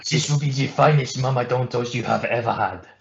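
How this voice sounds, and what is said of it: Put-on French accent. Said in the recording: “That's the only French accent I'm ever going to do.”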